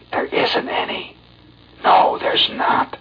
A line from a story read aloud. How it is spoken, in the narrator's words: whispering low to every tot